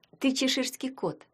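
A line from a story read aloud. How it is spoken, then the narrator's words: Tender. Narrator (Russian): сказала ему Таня нежно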